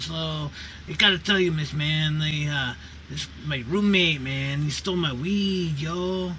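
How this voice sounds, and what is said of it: Stoner voice with Mexican accent. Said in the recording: “Good impersonation... you were kind of going for the Mexican Cheech Martin... it was decent enough. It's not Michael Winslow good”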